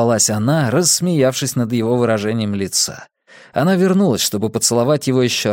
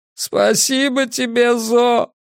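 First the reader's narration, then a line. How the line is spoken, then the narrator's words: Sobbing. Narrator (Russian): Мигель рыдал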